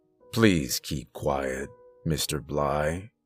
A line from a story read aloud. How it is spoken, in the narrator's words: repeated, his voice still calm and professional